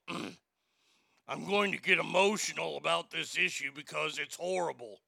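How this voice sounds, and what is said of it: Impression of Jen Psaki. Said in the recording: “let me see if I can do her voice here”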